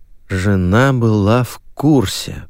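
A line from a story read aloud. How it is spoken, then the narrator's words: Drawled. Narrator (Russian): протянул я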